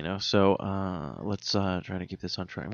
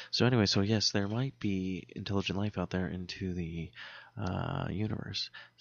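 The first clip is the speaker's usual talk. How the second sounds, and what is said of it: Mock public-radio announcer voice. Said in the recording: “I'm going to do an NPR voice now”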